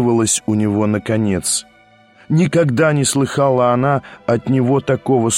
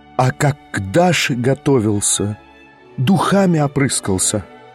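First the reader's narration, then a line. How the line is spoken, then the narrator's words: Sudden terrible whisper. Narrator (Russian): проговорила вдруг страшным шепотом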